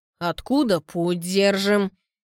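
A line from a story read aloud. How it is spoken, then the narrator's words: Stern question. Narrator (Russian): спрашивает Антон строго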